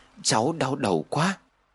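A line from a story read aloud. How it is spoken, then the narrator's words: Whisper. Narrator (Vietnamese): Em thì thầm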